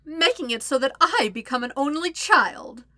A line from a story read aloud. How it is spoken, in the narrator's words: Azula cackles